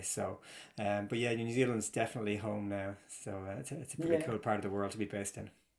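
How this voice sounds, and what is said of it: Irish accent. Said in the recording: “we can hear in your accent that you've definitely got an Irish flavour”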